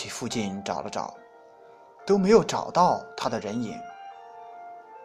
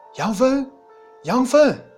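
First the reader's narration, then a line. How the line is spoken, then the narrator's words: Repeated calling. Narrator (Chinese): 牛郎继续叫着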